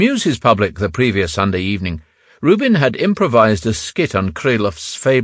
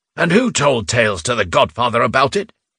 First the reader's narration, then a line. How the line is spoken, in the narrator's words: Rubin snapped